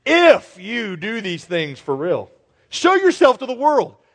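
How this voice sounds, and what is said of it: Sarcastic reading. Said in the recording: “I'm reading that sarcastically.”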